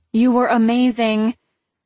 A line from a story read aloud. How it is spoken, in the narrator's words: my sister called out